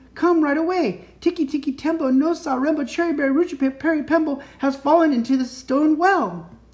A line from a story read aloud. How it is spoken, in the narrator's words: shouted Chang